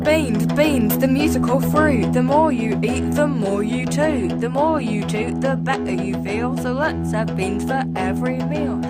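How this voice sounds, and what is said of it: Very British accent. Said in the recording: “is that a very British accent? ... Very exploded. British. ... So it has to be an English voice.”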